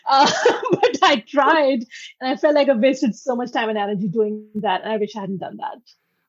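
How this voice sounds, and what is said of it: Noticeable accent. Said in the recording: “my accent ... the way I sound ... I took accent correction classes, which obviously didn't work, as you can tell”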